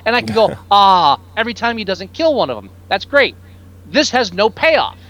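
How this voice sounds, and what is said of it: Yelling, loud angry voice. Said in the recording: “I'm yelling.”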